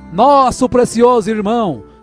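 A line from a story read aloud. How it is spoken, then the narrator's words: Crowd shouting. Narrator (Portuguese): milhares de pessoas corriam em sua direção gritando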